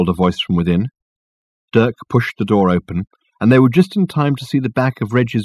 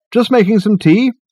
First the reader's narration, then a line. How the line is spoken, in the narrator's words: he called out